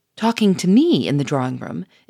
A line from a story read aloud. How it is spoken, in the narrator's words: exclaimed Gouchard